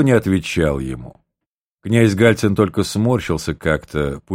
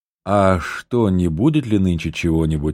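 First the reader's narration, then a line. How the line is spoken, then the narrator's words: Timid question. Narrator (Russian): робко спросил Михайлов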